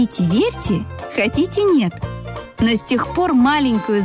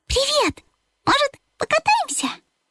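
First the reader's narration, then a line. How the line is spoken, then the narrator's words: Cheerful. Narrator (Russian): Он радостно подмигнул Бипу и сказал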